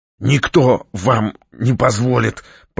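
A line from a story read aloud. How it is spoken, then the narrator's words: Hoarse rasp. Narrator (Russian): прохрипела Наталья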